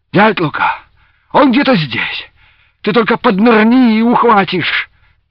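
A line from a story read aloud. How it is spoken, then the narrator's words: Shout. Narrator (Russian): крикнул Дениска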